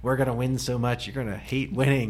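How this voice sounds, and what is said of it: Donald Trump impression. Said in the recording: “that your Trump impression?”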